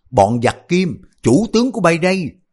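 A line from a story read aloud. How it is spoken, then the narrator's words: Loud battle shout. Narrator (Vietnamese): dẫn khí đang điền hét lớn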